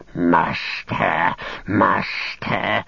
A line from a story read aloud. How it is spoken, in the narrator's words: he hissed